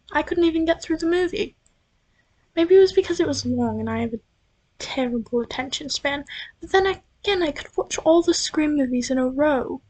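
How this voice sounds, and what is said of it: British-sounding accent. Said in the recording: “the accent, it's not real. ... And I'm not forcing it either. It's just something that randomly happens. I'm not British, I swear.”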